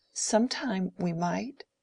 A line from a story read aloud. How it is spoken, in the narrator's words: said Dorothea in a trembling voice